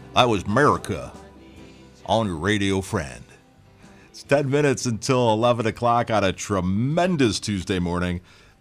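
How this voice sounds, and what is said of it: Southern American accent. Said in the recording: “the bad Southern accent”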